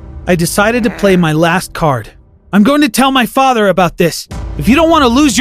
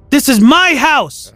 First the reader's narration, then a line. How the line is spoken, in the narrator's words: I screamed